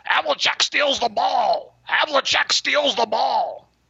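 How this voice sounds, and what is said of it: Imitates another person's voice. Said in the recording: “my Johnny Most impersonation ... That's good.”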